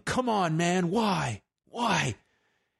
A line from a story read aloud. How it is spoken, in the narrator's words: One fan at ringside is yelling